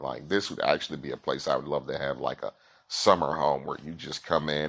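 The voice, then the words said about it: Southern American accent. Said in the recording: “we love Americans. I heard your accent. Are you from the South?”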